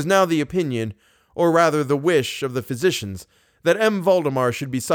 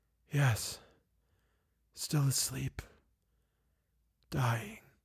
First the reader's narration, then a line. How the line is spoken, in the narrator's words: he said very faintly, almost inaudibly